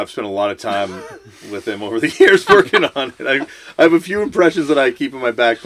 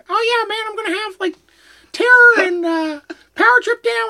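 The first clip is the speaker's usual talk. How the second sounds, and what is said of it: Imitates another person's voice. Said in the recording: “really good Maddie impression”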